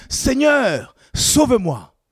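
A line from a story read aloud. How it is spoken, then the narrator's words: Panicked cry while sinking. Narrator (French): comme il commençait à enfoncer, il s'écria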